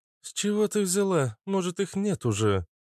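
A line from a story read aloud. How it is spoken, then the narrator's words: Sighing. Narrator (Russian): вздохнула Наташа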